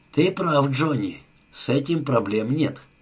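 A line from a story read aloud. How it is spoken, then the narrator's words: Soft. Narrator (Russian): мягко произнес О'Брайен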